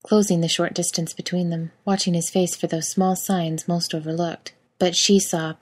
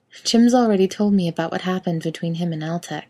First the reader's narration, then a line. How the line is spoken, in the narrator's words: she said calmly